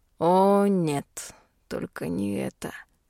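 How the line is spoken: Drawled. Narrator (Russian): протянул Хайт

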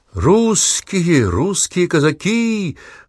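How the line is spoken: Officer's loud shout. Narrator (Russian): громко закричал один из офицеров свиты

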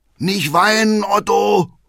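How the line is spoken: Father calling out. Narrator (German): ruft Vater Hackendal

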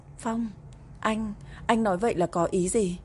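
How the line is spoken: Stammering question. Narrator (Vietnamese): ấp úng hỏi lại

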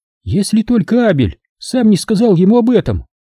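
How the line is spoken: Squeaky. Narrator (Russian): пискнула Каролин

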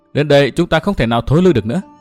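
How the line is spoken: Smiling. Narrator (Vietnamese): Nguyên Bình mỉm cười

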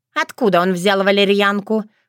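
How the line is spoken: Loud laughter. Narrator (Russian): хохотала Крылана

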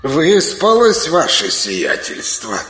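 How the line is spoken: Slightly sarcastic question. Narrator (Russian): Несколько язвительно поинтересовался тощий

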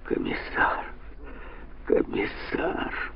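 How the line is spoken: Moaning. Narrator (Russian): простонал он

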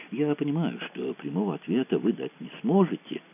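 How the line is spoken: Old man, ingratiating voice. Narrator (Russian): продолжал старик вкрадчиво

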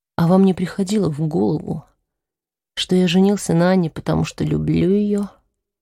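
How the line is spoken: Calm. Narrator (Russian): спокойно сказал Вальтер

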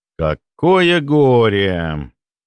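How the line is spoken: Drawl. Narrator (Russian): протянул я

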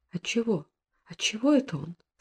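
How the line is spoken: Barely audible sick voice. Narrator (Russian): спрашивала больная, едва слышно

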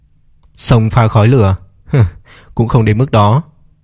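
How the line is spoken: Cold dismissive laugh. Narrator (Vietnamese): Lộ Nhất Bình cười nhạt một tiếng

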